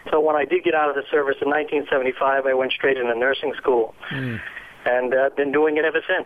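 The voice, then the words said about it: Massachusetts accent. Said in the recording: “for those who can't pick up your accent, you're from Massachusetts ... we hear it coming through, absolutely”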